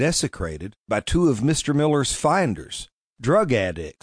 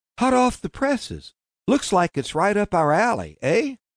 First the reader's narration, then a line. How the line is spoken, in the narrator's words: Calvin sighed